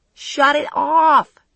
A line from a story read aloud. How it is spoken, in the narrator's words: she was yelling